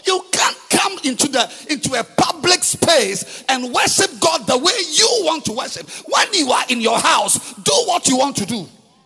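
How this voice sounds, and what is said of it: Shouting. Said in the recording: “I'm sorry for shouting. My mother says I shouldn't shout.”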